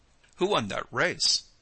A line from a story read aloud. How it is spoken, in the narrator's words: queried Harry, laughing